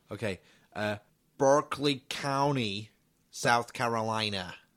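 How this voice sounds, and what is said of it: Put-on American accent. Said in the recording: “We'll do it in an American accent”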